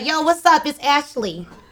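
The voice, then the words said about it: Put-on New York/Boston accent. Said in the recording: “Can I hit a New York accent? ... Like Boston, like a Boston accent.”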